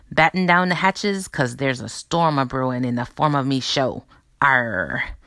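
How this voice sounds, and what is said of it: Put-on pirate talk. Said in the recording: “Talk Like a Pirate Day... my pirates is a bit rusty”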